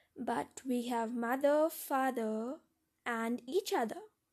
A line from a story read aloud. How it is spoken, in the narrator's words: spoke gently